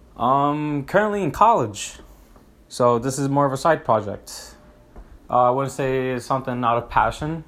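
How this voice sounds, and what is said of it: Hispanic accent. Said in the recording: “I'm Hispanic, if you didn't tell by that accent right there”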